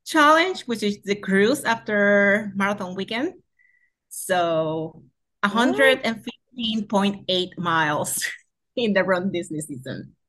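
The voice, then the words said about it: Puerto Rican accent, English second language. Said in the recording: “they can obviously tell you have an accent ... the English is your second language ... you're from Puerto Rico”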